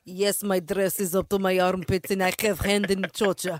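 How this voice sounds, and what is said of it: Put-on Russian accent. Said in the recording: “with my Russian accent”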